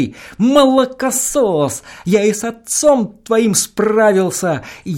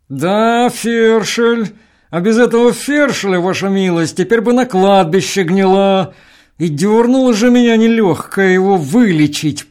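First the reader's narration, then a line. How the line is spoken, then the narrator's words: Through gritted teeth. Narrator (Russian): прибавил он сквозь зубы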